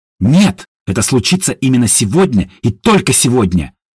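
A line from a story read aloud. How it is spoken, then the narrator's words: Barked. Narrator (Russian): рявкнула Едвига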